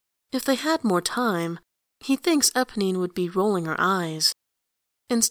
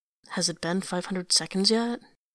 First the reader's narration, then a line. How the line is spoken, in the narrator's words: He mutters